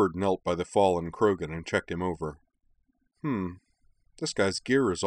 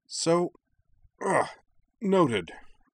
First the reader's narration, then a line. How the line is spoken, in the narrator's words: Arna grunted as she was hauled to her feet